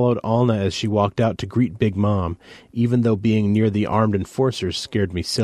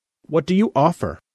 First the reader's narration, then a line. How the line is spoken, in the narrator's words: Alna said sharply